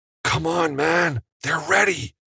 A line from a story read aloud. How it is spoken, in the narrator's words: Jake hissed